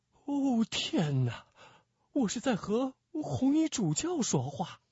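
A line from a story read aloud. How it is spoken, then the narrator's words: Panicked, low voice. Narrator (Chinese): 伯纳修惊慌失措地低声说道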